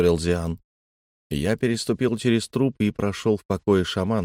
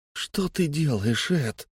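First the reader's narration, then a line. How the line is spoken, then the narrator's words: Quiet wail. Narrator (Russian): тихо взвыл Фари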